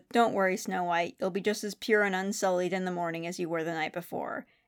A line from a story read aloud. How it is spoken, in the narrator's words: and he says